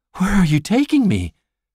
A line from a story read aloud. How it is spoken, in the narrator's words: Meredith asks breathlessly